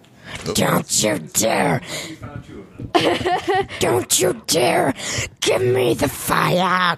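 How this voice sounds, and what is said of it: Creepy demon-like character voice. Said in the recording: “really good Gollum impression ... do your like demon voice ... Ooh, that's good. That's good.”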